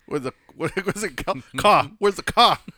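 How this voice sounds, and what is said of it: Put-on Boston accent. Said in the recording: “do a New Jersey ... isn't that Boston? ... Oh, that's Boston.”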